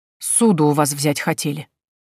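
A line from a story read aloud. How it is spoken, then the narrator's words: Hurt, muffled voice. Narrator (Russian): сказала подруга глухим от обиды голосом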